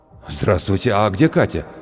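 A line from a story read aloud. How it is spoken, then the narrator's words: Breathed out. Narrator (Russian): выдохнул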